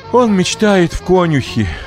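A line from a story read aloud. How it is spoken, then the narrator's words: Sighing. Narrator (Russian): вздохнула Богданова мама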